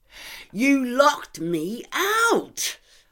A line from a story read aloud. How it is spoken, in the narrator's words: shriek in his ear